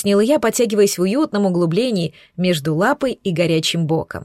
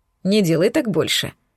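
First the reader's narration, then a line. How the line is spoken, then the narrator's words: Snort. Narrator (Russian): хмыкнул он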